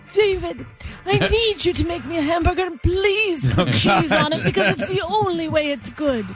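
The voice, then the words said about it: British Margaret Thatcher impression. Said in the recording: “Could you do it with more of a British accent? ... I can only do my Margaret Thatcher.”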